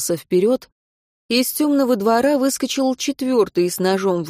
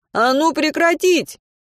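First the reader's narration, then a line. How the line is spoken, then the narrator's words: Shout. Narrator (Russian): Мартин крикнул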